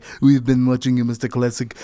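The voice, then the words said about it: Bad Russian accent, Schwarzenegger-like. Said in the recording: “That was a terrible Russian accent, by the way. I sound like Arnold Schwarzenegger.”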